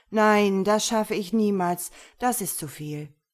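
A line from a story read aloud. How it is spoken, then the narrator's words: Sighing while sinking down. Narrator (German): seufzte niedersinkend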